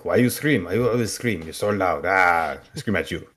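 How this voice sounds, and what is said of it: Good Transylvanian accent. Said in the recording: “that's a very good Transylvanian accent”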